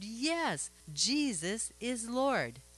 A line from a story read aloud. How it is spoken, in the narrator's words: this precious little one-year-old girl happily and loudly answered